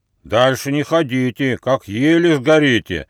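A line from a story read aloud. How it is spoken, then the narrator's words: Menacing booming voice. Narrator (Russian): прогудел грозный голос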